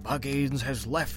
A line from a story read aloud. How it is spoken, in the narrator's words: he answered in a whisper